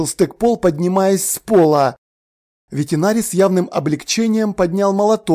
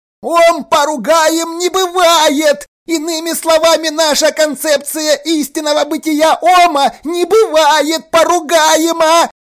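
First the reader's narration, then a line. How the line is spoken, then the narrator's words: Shrieking. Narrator (Russian): Завизжал Стыкпол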